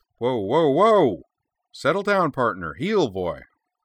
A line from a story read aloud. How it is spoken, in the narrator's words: declare in a commanding voice